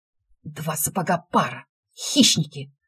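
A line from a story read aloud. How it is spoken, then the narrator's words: Unintelligible mumble. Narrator (Russian): пробормотал кролик, но так неразборчиво, что его не поняли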